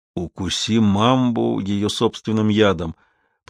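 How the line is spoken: Muttering. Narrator (Russian): пробормотал он

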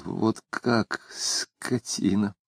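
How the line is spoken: Muttered curse. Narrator (Russian): Макаров пробормотал

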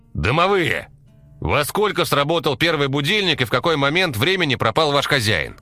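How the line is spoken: Shout. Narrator (Russian): крикнул Валера, поднимая голову вверх

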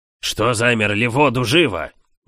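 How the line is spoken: Barked loudly. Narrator (Russian): гаркнул управляющий

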